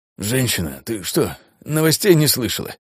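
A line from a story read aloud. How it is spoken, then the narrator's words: Dry-mouthed wheeze. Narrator (Russian): просипел он, поняв, как пересохло во рту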